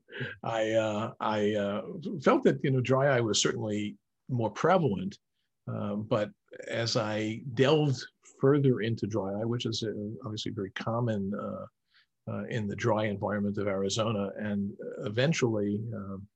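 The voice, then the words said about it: Slight New York accent. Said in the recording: “perhaps the viewers can hear a little bit of that New York accent”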